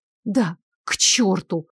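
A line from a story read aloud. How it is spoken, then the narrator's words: Muttered, woman. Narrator (Russian): пробормотала она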